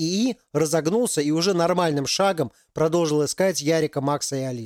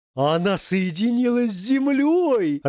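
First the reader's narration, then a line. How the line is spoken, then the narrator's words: Joyful group shouting. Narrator (Russian): радостно закричали хиппи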